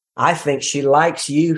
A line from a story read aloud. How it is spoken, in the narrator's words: he said